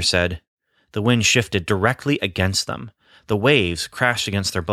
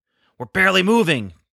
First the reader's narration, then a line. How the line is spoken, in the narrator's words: Peter shouted to the other men